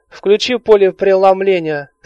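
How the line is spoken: Plain. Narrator (Russian): сказал 13-й

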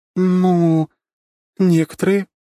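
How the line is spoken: Uncertain drawl. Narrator (Russian): неуверенно тянет княжна

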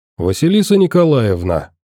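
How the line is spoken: Cheerful, amused address. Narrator (Russian): обратился к девушке сталкер и весело усмехнулся

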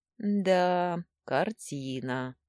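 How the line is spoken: Drawling. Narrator (Russian): протянула я

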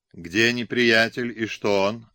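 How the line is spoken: Plain question. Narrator (Russian): опять спросил Фрейман

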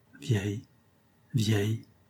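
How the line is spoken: Monotone repetition. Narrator (French): répétait-il d'une voix monotone

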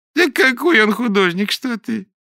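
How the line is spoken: Sudden laughter. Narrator (Russian): неожиданно засмеялась Софья Григорьевна

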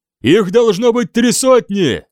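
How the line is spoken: Shouting. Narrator (Russian): крикнул он

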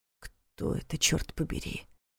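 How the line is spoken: Quiet question. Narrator (Russian): тихо спросил Ваня

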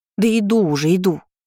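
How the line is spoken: Grumbling. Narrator (Russian): Буркнула

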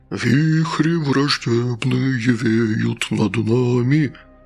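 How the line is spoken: Sepulchral voice. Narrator (Russian): провел Гастон загробным голосом

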